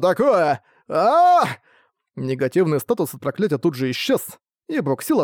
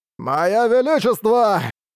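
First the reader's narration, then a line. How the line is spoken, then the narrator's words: Merchant giggling under spell. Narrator (Russian): Продолжал хихикать торговец, когда его поразил эффект свитка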